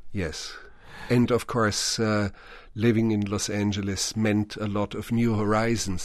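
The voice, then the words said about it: Thick European accent. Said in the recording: “I speak with a thick accent”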